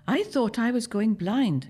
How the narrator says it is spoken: she says

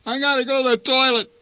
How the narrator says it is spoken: whined Randy

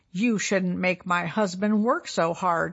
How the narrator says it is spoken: said

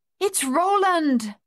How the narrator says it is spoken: Madame Chassé cried

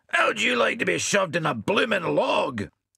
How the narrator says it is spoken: he shouted at Bill

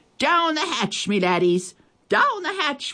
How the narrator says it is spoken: we all shouted

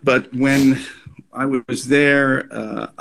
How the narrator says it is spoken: I wailed

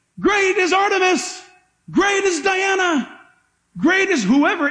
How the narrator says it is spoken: They would shout up and say

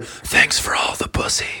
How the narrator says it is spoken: I'm going to just whisper

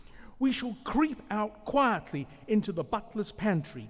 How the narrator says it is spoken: cried Mole

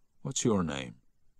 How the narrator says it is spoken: Harry asked gently

